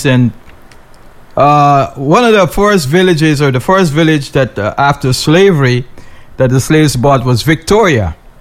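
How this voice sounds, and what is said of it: Guyanese accent. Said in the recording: “I'm Guyanese. Everybody should know that by now from my accent”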